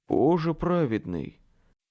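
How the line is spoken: Breathed out. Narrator (Russian): выдохнул Билли

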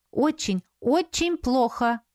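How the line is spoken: Joyful. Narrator (Russian): радостно сообщила Саяри

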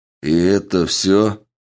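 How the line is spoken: Cold. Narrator (Russian): холодно произнес он

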